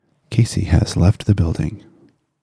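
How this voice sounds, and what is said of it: NPR radio announcer voice. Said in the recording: “Can you do it in your best NPR voice? ... Not as good as Casey, but I try.”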